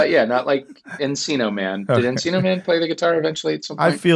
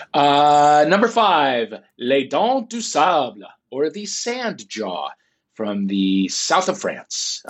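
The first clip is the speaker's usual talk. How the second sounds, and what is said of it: Good put-on French accent. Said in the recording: “You have a beautiful French accent... It's very good.”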